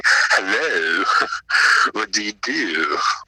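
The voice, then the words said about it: Put-on sophisticated English accent. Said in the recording (Danish): “I put on this uh, sophisticated English accent”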